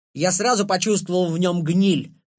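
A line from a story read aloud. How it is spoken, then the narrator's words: Loud shout, guard. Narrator (Russian): громко крикнул наш конвоир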